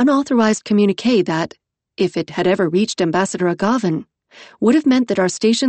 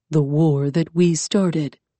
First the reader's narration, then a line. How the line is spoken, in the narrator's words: Iskander murmured